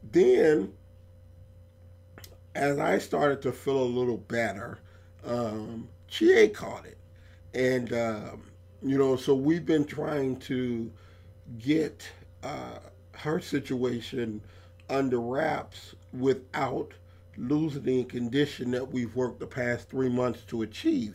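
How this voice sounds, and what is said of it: Raspy, hoarse voice. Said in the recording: “my voice sounding a little bit extra raspy, it's not the mic, it's not something else. It's just that my voice is fucked from that flu”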